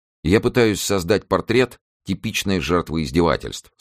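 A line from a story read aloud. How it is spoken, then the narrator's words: Plain. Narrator (Russian): сказал Ньюсон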